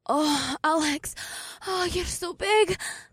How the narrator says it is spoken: May gasped

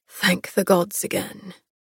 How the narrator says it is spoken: he murmured

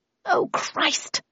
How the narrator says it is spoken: I muttered

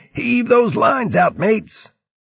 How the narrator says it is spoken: Fermo shouted

